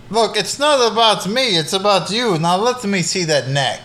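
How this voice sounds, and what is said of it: Vampire voice with Transylvanian accent. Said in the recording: “He's talking in a Transylvania accent ... sounding like you're from Transylvania”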